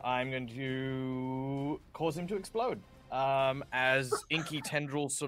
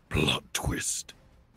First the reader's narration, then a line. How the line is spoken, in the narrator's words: growling, breathy word, as he just whispers